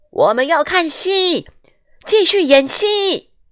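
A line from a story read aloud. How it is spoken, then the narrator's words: Irritated crowd shouting. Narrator (Chinese): 观众变得烦躁起来，并开始叫喊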